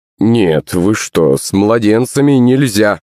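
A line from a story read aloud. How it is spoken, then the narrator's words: Plain. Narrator (Russian): ответил мужичок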